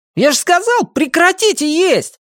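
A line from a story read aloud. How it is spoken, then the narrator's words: Exclamation. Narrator (Russian): воскликнул Эйгю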